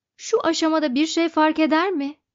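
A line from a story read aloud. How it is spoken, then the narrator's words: Shouting. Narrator (Turkish): diye bağırdı Arthur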